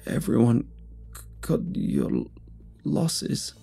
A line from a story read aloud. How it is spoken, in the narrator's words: the man sputtered through sobs